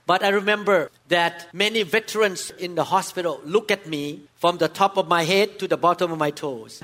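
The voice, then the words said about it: Non-native English accent. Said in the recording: “I spoke with very bad accent. Very poor English language. I improved a lot, but still have some problem because I did not grow up here.”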